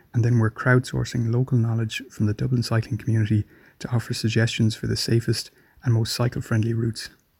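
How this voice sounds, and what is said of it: Irish accent. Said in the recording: “I loved the accent. I loved hearing that we have a listener in Ireland.”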